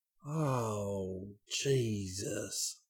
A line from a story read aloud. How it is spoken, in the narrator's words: Enoch groaned